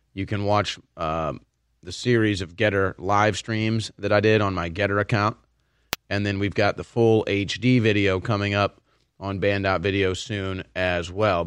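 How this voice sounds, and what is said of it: Strained, hoarse, damaged voice. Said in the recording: “trying to do my broadcast voice here... I had just had no voice... it's extremely painful to talk at this point, doing a lot of damage... Probably going to sound like Alex Jones at some point... straining myself”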